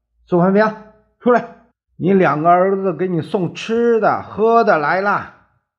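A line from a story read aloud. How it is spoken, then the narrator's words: Shouting. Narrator (Chinese): 喊叫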